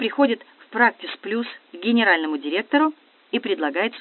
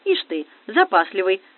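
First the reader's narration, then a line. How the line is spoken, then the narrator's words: Snorting. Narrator (Russian): хмыкнул следователь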